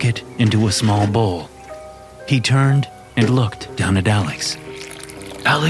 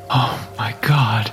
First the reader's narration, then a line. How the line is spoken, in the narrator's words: he whispered